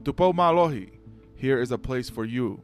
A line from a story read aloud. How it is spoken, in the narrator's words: The Mata'apule on Finau's right hand exclaimed aloud